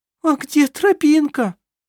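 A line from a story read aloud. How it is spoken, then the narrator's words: Whimpering. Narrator (Russian): Захныкал он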